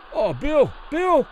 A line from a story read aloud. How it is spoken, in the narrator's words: Kelly pleaded to the referee